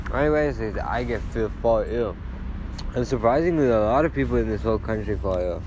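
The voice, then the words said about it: Out of breath, breathless speech. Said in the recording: “I'm out of breath, man. I'm out of breath.”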